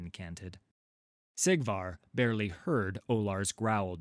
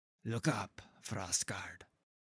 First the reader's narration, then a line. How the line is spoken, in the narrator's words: the priest said, quietly